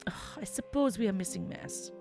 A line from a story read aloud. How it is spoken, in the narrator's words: sighed